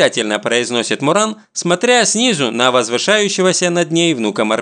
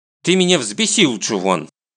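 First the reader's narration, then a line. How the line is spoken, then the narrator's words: Angry. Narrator (Russian): сердито сообщает Муран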